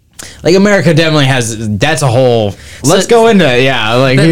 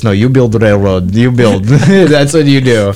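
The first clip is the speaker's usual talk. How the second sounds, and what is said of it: Put-on Russian accent. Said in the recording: “In a Russian accent.”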